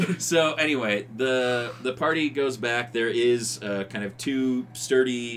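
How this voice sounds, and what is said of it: Usual voice. Nothing is said of it.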